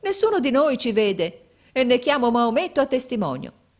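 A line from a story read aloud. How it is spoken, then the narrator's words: Exclaimed, brother. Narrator (Italian): esclamò mio fratello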